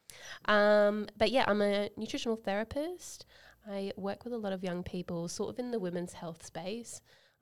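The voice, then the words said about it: Blended Australian-British accent. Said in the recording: “Great Australian accent. ... a little bit of a blend there. Some people think I'm South African. ... a little bit of a mix of an Aussie British.”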